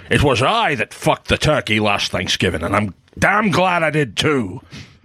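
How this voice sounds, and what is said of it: Sean Connery impression, Highlander Spaniard. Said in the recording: “That's a solid Connery ... pretty good ... You really nailed the Spaniard accent he did in Highlander”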